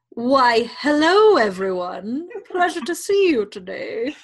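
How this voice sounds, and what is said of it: Fake British accent. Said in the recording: “You got to have a fake British accent.”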